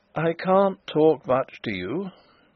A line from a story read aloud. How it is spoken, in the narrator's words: he said in a weak voice